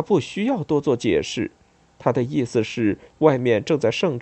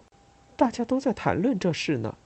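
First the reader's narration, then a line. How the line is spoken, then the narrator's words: Quiet. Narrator (Chinese): 拉纳雅小声对我说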